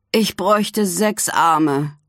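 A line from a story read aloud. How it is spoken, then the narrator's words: Groan. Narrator (German): stöhnt er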